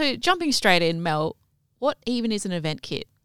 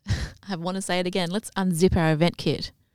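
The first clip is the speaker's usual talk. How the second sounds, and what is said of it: Sultry, sexy voice. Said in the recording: “such a sexy voice”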